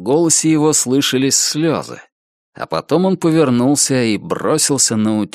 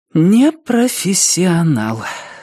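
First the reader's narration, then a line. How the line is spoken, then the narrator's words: Sigh. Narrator (Russian): вздохнула охотница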